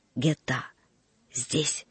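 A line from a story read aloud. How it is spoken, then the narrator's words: Whispered. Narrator (Russian): шепотом сказал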